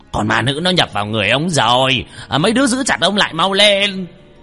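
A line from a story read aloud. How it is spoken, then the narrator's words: Sorcerer shouting. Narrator (Vietnamese): thầy phù thủy hét lên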